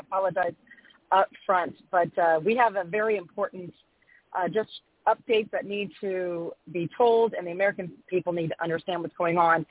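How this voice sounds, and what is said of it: Slightly scratchy voice. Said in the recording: “I'm a little under the weather, so if my voice is a little scratchy”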